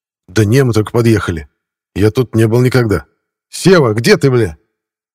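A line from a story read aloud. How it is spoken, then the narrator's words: Shout. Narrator (Russian): прокричал он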